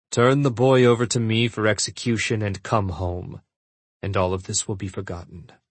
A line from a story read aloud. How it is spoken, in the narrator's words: he said coldly